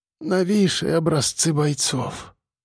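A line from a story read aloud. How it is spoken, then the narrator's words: Whisper, female. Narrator (Russian): прошептала Линда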